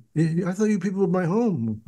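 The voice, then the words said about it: Bad impression of Jerry Seinfeld. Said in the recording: “Bad impression.”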